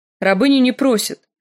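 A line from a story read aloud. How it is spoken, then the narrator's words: Sharp reply. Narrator (Russian): резко отвечала Мири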